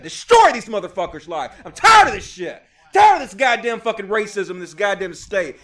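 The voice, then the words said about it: Angry yelling into the microphone. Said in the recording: “Sorry I'm yelling into the goddamn microphone ... Sorry about your eardrums. I know I'm bursting you guys' eardrums”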